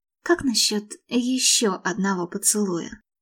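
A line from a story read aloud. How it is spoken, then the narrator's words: Smiling whisper. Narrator (Russian): улыбнувшись, шепнула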